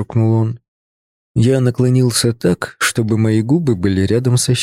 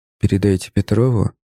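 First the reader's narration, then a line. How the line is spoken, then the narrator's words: Quiet. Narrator (Russian): сказал я тихо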